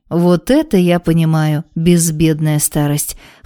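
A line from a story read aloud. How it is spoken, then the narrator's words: Snorting monk. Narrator (Russian): хмыкнул монах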